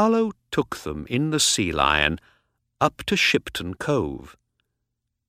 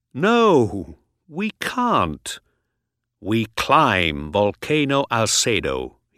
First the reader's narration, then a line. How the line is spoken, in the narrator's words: he said